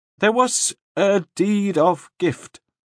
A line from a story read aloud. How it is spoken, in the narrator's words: Nielsen said miserably